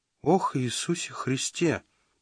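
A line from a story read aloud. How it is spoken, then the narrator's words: Whisper. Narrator (Russian): прошептал Родранер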